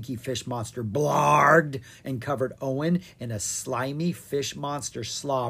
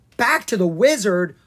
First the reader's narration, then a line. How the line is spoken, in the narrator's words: Owen gasped